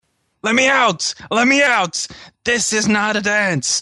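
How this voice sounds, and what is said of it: Screaming. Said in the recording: “I'm screaming”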